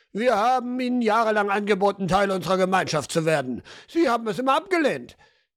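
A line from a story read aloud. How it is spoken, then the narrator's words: Called out angrily. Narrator (German): Jemand rief aufgebracht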